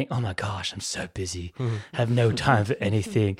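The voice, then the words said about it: Posh privileged suburban accent. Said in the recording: “What is that accent? ... That's the hills privilege accent.”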